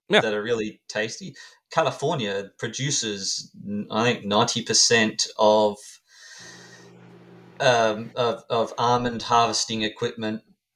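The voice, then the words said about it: Quick speech, hard-to-follow accent. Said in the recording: “It was very quick, uh, very quick, and with such a you know your your accent there, it was just difficult to to understand you.”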